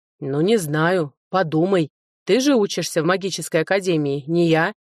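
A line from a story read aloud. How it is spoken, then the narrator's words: Wry snort. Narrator (Russian): хмыкнул Норден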